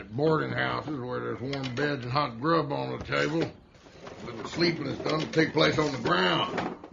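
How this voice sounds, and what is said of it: Thick accent, sounds mumbled. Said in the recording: “quite the accent that he has, which it always sounds like there's something in his mouth”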